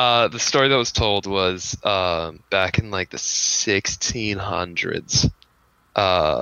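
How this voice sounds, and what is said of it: Usual voice. Nothing is said of it.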